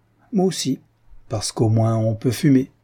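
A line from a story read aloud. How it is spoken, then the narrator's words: Laughing reply. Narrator (French): d'Argonne répondit en riant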